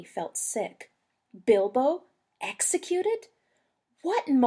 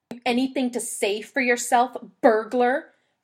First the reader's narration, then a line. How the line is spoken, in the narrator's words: Thorin snapped